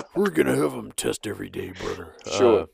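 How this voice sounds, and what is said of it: Imitates another person's voice. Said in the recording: “My voice is tired now. Just from a little bit of doing some Hulkamania.”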